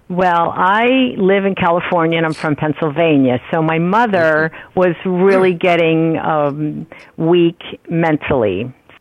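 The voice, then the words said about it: East Coast American accent. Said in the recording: “East Coast. I can tell from your accent.”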